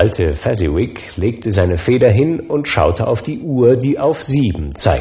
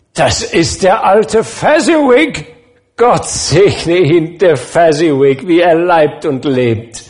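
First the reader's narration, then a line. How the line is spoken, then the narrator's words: Shouting. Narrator (German): Beim Anblick eines alten Herrn mit einer gestrickten Wollmütze schrie Scrooge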